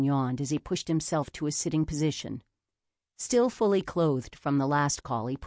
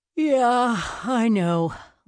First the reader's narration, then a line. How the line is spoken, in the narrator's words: Leon yawned again